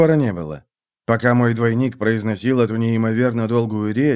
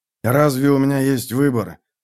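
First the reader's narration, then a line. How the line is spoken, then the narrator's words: Grumbling. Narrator (Russian): проворчал я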